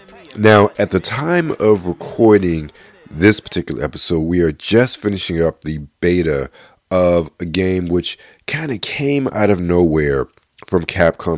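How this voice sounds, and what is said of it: Voice sounds a bit sick. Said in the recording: “been a bit under the weather, you can probably hear from my voice”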